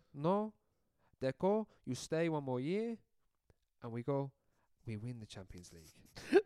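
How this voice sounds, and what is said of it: Imitated accent drifting into Italian. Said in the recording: “That was your worst accent so far. He started off so well. ... And then he turned a bit Italian.”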